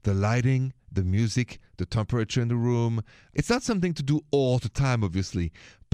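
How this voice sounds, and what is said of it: French accent. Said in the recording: “So you hear my accent. It's from France, from Paris.”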